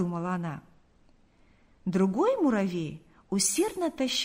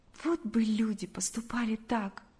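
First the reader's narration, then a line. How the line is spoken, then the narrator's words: Said with heavy sigh. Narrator (Russian): сказала Галя, тяжело вздохнув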